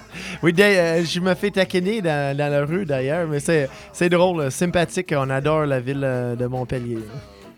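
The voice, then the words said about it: Canadian French accent. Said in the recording (French): “rien qu'à ton accent, on le sait, vous êtes Canadien.”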